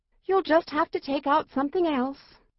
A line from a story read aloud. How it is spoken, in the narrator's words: sighed Mona